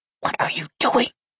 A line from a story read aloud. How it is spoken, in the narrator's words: I hissed quietly